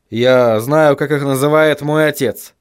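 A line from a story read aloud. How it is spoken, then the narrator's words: Grumbling. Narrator (Russian): буркнул Вильям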